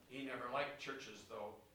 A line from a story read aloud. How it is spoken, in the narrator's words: Real quietly, he said